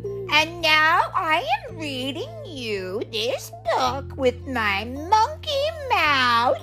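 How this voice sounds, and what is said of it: Silly monkey character voice. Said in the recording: “in my monkey voice”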